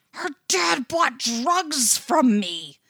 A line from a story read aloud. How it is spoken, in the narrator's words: he hisses, all big wet eyes and imploring frown